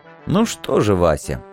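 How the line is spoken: Muttering. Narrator (Russian): бормотал я

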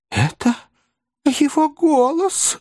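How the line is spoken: Exclamation. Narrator (Russian): воскликнула незамужняя тетушка

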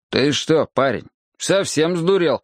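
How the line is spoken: Stern question. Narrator (Russian): строго спросил я его

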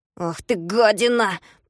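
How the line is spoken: Angry grumble. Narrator (Russian): проворчал он со злостью

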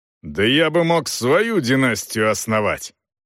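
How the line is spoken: Gloomy grumble. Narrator (Russian): угрюмо пробурчал

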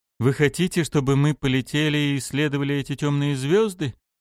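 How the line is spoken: Weary question. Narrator (Russian): устало поинтересовался я

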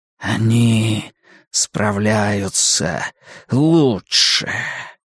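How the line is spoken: Vampire whispering. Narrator (Russian): прошептал вампир

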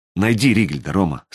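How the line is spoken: Quiet. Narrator (Russian): сказала она тихо

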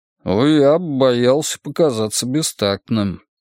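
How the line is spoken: Mumbling wolf. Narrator (Russian): промямлил волк

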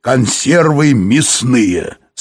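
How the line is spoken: Plain. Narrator (Russian): сказал Юрковский

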